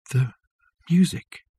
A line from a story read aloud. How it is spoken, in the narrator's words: whispered Richard